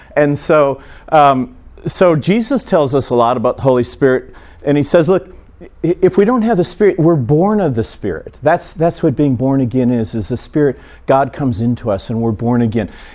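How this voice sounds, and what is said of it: Very fast speech. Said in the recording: “I'm going to go quicker than I normally go ... talking like a Yankee on drugs, so I will try to slow down a little bit”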